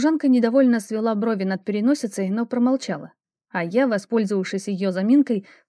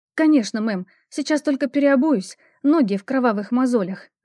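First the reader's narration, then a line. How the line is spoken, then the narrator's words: Whimpering. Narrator (Russian): захныкала я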